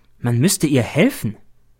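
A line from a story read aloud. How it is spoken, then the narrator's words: Plain. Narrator (German): sagt der B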